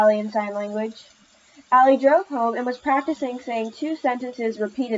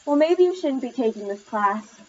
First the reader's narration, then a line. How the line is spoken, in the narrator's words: her mom sighed back